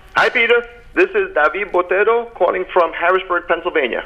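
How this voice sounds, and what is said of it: North Jersey accent. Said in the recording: “This trashy accent will tell you I'm from North Jersey.”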